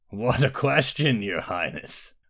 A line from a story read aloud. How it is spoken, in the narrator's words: laughed the mountain